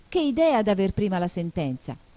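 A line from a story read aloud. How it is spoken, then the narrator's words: Exclaiming. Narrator (Italian): esclamò Alice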